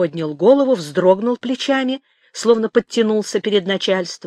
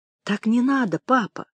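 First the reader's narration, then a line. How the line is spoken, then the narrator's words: Timid correction. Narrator (Russian): робко поправила Манечка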